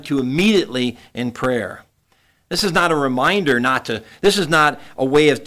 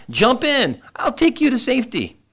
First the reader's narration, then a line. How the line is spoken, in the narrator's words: a neighbor came by in a small rowboat and called out